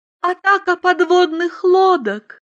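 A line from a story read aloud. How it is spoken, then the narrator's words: Sad. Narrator (Russian): печально сказала Айлин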